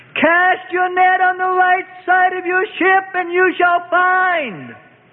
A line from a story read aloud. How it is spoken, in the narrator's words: called out loudly across the gray waters